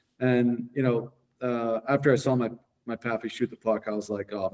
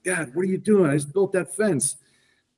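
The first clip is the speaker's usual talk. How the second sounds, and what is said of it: Imitated French Canadian accent. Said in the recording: “that French Canadian accent of Blake's pappy”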